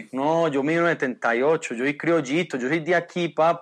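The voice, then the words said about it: Colombian Medellín accent. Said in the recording (Spanish): “qué buen acento ... El acento, parce ... Es de Medellín, ¿no?”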